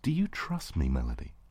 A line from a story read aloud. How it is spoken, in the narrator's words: asked aloud, firmly, yet gently